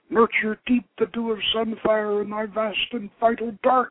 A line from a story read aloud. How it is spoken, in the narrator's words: he gasped as his seed rushed forth to fill her womb